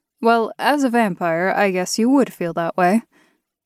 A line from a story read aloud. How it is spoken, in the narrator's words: I laughed